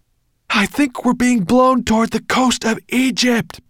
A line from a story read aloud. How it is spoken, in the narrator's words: Ben yelled